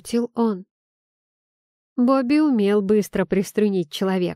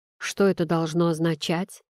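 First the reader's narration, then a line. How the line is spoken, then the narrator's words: Grumbling. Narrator (Russian): проворчал я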